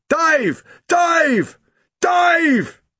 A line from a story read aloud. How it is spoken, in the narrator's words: in a loud sailor's bellow